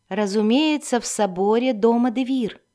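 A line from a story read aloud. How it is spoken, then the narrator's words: Plain. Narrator (Russian): ответила Вирна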